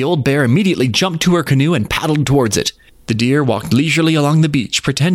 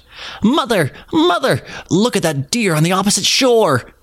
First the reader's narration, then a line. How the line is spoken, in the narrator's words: one of the little bears he cried out